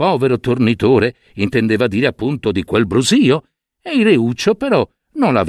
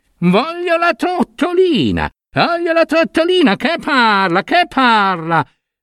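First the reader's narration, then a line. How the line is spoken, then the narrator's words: Shrieking tantrum. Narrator (Italian): il Reuccio continuava a strillare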